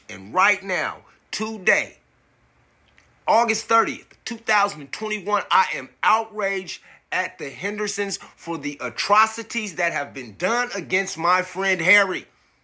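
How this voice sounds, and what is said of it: Yelling, outraged. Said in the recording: “I'm sorry for yelling.”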